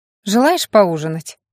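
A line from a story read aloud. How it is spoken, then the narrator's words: Smirking hum. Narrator (Russian): хмыкнула Аня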